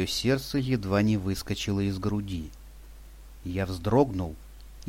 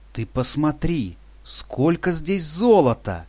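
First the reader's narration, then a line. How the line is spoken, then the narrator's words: Exclaimed amiably. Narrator (Russian): дружелюбно воскликнул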